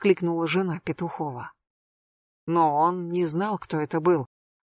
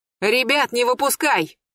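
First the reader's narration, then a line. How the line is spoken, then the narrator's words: Shouted. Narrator (Russian): крикнул он жене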